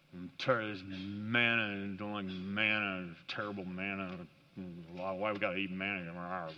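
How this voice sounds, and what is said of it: Low grumbling mumble. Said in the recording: “you put together growl and mumble, and you get grumble ... complain in a low voice”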